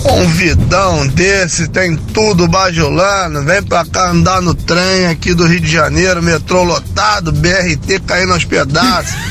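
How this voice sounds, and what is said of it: Carioca Brazilian Portuguese accent. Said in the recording (Portuguese): “Eu amo sotaque carioca. Acho demais esse sotaque”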